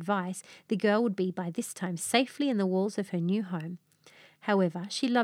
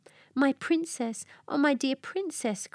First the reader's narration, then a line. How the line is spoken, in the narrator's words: cried she